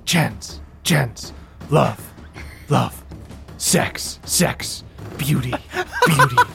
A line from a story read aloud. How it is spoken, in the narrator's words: you just hear dissonant whispers go